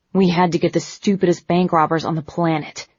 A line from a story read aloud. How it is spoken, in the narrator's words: he muttered angrily